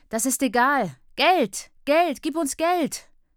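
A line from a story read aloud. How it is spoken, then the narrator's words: Skinny boy shouting. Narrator (German): schreit ein dürrer Junge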